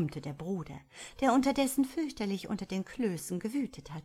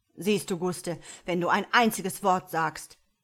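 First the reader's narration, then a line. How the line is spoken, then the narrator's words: Thundering. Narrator (German): donnerte Karl, heftig auf den Tisch schlagend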